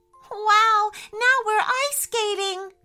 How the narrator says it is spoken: cried Tara, spinning around with so much happiness

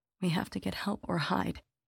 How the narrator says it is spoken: my mother muttering

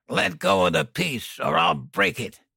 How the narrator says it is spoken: Dan growled

